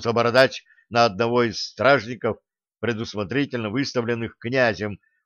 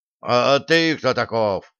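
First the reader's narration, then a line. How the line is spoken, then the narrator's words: Growled reply. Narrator (Russian): прорычал в ответ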